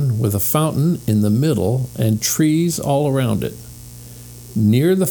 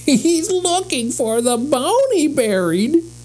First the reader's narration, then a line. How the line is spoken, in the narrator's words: laughed Benny